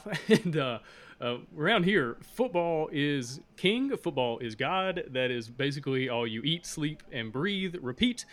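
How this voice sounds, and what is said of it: Southern American accent, Alabama. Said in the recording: “I'm from Alabama, and if you can't tell by my accent, I'm from the South”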